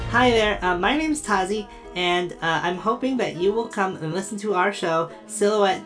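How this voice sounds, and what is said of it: Robotic droid-like character voice. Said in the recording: “I sound like a droid, ... I build a cool translator droid that um, translates for me as I talk”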